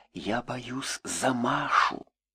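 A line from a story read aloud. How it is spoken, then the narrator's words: Whisper into the ear. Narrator (Russian): Она шепнула в самое ухо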